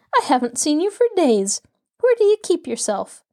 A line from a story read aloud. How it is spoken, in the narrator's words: Nancy laughed as she greeted her chum